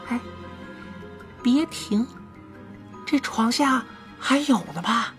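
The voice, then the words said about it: Quiet, hushed female line. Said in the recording (Chinese): “有个女生小声说”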